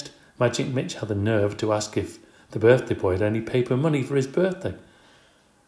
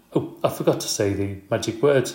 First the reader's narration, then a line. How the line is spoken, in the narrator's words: exclaimed